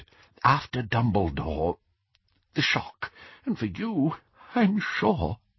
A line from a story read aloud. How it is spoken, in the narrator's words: he whispered